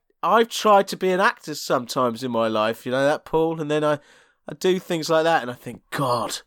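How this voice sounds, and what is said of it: Usual voice. Nothing is said of it.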